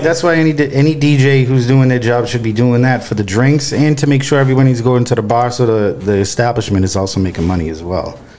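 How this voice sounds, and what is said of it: Slight Boston accent. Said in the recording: “You got a little accent. ... I'm from Boston.”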